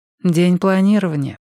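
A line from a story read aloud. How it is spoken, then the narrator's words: Sighing. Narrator (Russian): вздохнула Эдит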